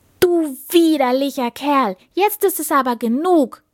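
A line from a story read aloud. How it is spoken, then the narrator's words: Angry shout. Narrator (German): rief die Prinzessin zornig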